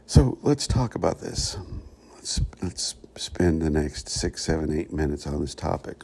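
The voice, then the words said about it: Quiet whispered speaking voice. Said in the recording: “trying not to wake anybody up too early. ... that's my whisper tone this morning.”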